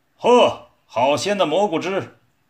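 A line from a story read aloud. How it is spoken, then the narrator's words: Deep gruff shout. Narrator (Chinese): 一个低沉的粗嗓门喊道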